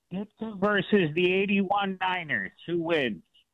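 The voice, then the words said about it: Put-on exaggerated Chicago accent. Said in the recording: “my best Chicago accent from SNL back in the days”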